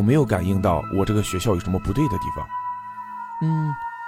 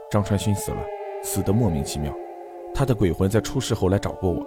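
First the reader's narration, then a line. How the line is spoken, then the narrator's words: Low, deep voice. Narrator (Chinese): 何建飞沉声道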